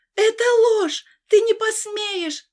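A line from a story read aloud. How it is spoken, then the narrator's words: Shouted. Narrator (Russian): закричала я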